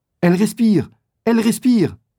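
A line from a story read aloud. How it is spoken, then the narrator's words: Cried out. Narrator (French): s'écrie Gordon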